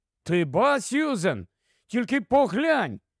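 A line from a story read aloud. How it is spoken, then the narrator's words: Delighted exclamation. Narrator (Ukrainian): захоплено вигукнув Пітер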